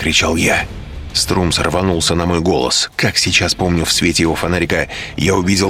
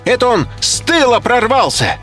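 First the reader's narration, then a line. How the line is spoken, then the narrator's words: Shouting professor. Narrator (Russian): закричал профессор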